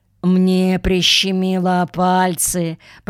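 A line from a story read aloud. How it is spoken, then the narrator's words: Grumbled. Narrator (Russian): проворчал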